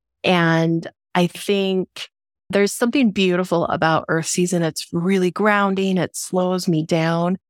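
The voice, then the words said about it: Congested, rough cold-affected voice. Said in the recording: “I've caught myself a little stress cold. And while my voice sounds extra moody today”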